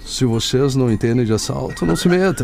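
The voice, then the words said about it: Imitates another person's voice. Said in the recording (Portuguese): “boa, hein? ... Foi boa imitação.”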